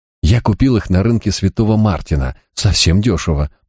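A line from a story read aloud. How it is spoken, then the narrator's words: Mumble. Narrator (Russian): пробормотал Марк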